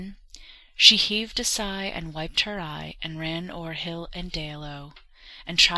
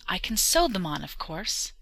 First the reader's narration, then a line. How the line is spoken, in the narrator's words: she exclaimed, smiling again